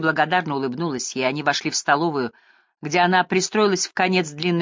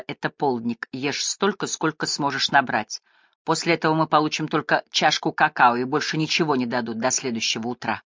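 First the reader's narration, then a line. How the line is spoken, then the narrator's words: Girl's whisper. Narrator (Russian): Одна из девочек прошептала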